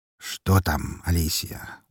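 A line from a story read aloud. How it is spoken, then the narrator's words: Tired question. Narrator (Russian): устало спросил Волков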